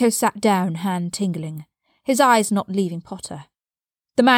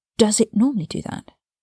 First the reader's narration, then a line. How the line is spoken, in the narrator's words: Potter asked, his voice hushed